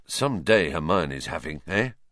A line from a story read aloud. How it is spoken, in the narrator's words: Ron muttered to Harry, looking awed